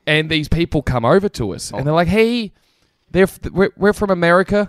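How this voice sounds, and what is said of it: Put-on American accent. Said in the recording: “This accent's a little bit better, but not as good as the last one.”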